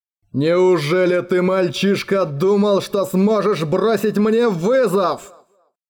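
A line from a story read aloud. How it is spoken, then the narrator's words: Furious spitting snarl. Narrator (Russian): прорычал, брызгая в бешенстве слюной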